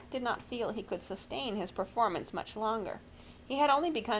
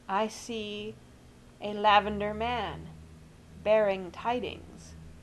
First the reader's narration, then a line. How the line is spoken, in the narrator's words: he said, quite distinctly and slowly